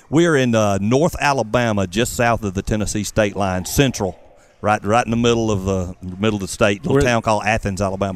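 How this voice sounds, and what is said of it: Southern American accent. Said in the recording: “I love your southern accent like mine.”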